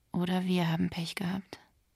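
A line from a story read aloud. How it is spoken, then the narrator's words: Quiet. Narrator (German): sagte Nota leise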